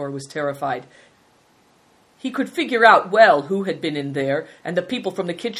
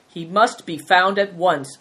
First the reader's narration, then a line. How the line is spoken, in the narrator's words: ordered sternly